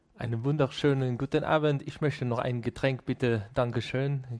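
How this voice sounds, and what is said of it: German spoken with French accent. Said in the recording (German): “Verabschiede mal den Podcast in neun Sekunden mit französischem Akzent.”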